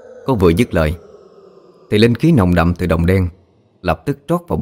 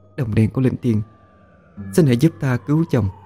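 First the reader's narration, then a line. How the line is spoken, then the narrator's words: Soft whisper. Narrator (Vietnamese): thủ thỉ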